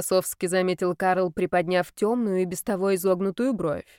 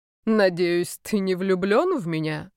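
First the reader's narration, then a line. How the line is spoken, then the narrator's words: Mocking question. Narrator (Russian): насмешливо спросил Карл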